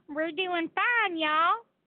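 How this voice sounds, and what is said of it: Put-on Southern US accent. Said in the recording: “I love using a southern accent.”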